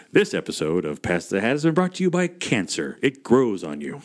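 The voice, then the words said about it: Radio announcer voice. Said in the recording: “put on my best radio voice”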